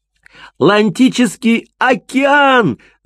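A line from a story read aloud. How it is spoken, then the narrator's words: Yelling. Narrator (Russian): завопил Кристиан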